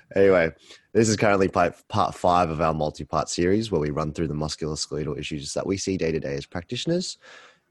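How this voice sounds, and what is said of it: Tired, lower-pitched morning voice. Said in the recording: “a little bit on the tired side, aka me... my voice is a lot lower”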